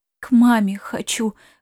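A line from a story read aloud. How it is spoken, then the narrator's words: Girl's muffled breathed words. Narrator (Russian): выдохнула девчонка, пряча лицо в коленях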